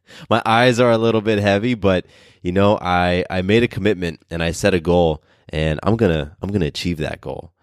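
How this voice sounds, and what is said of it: Tired, low-energy voice. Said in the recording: “I'm tired. You might be able to hear it in my voice a little bit.”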